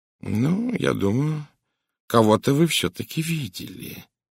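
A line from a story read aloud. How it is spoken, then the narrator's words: Usual soft tone. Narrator (Russian): сказал Пуаро обычным своим мягким тоном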